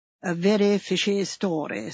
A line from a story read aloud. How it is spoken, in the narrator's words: said Sir Henry Clithering gravely